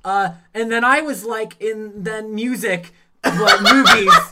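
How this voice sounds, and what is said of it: Imitates another person's voice. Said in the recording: “my impression of Ian on a podcast”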